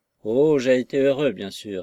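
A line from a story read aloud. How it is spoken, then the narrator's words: Careless, distracted. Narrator (French): admit-il, d'un ton négligent, et l'esprit occupé ailleurs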